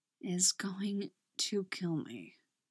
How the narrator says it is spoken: mumbles against her neck

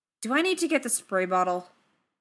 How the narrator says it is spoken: snaps

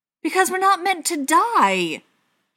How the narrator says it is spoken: John exclaimed

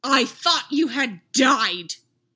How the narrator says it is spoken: Anakin snarled

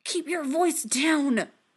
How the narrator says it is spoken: Tony hisses

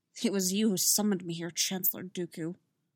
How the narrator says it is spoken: He muttered

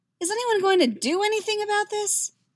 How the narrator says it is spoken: He asks, his voice pitching a little higher

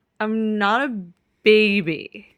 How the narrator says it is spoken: Keeley slurs and grins

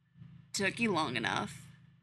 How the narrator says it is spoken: purrs

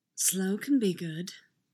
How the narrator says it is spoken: murmurs against his cheek

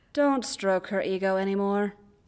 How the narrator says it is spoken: Obi-Wan sighs

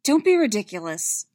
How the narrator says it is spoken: she snapped

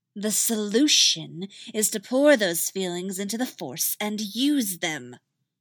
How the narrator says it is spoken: Ventress snarled

